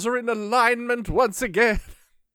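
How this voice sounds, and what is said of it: Byron Orpheus impression. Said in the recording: “Going full Orpheus. ... you're definitely turning him into Byron Orpheus there ... you can do the voice”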